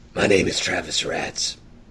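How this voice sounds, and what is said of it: Batman-style character voice. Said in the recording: “doing his best Batman voice”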